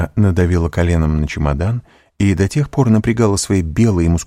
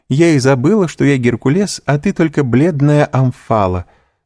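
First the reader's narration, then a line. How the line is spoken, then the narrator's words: Laughing. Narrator (Russian): сказала, смеясь и жени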